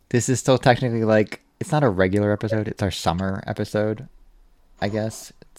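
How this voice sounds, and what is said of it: American accent. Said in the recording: “Sheffield Wednesday Opinion with an American accent.”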